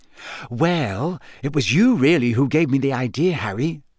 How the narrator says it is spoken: she said

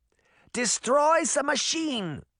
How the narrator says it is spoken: the older Granny Relda shouted over the raging storm

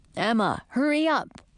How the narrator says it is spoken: said Edric

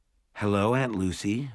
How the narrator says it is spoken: Mom said hesitantly

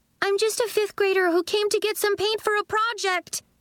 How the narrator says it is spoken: yelled at the chaos

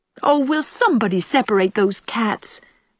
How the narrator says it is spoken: pleaded Stella, shudderingly

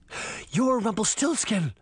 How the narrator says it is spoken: she gasped

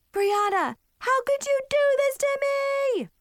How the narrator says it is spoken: screamed

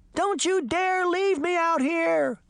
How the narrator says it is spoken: Sabrina screamed

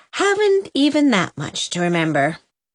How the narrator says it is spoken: concluded Susan with a sigh

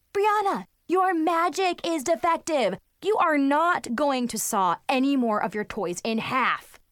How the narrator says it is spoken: yelled

